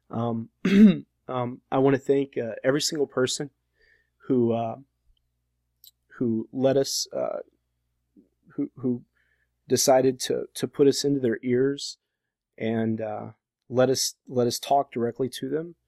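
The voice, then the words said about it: Hoarse, fading voice. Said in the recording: “I'm starting to actually lose my voice now.”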